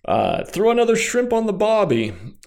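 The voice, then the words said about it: Poor attempt at Australian accent. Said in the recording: “That was not an Australian accent.”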